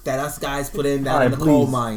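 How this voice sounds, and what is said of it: Exaggerated put-on Boston accent. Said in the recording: “that Boston accent ... is it accurate? ... my terrible Boston accent”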